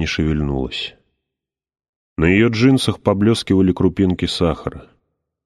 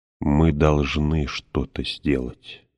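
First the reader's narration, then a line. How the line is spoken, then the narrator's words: Plain. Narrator (Russian): сказала она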